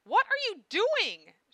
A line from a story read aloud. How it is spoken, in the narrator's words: She cried, blushing with embarrassment